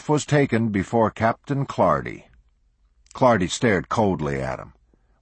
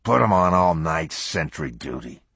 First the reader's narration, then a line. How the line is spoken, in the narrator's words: Clardy snarled